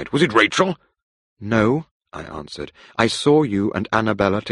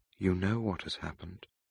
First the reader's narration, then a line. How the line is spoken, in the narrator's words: I said quietly